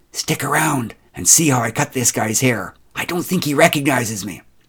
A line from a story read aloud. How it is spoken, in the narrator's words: she whispered in my ear